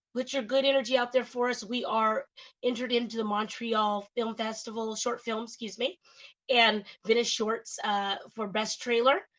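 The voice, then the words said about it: Hoarse, partly lost voice. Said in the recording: “I'm a little hoarse today, guys... I'm nursing a sore throat, and I lost my voice a little bit”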